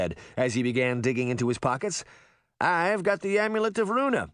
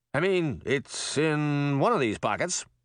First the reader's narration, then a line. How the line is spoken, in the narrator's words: he said, fumbling nervously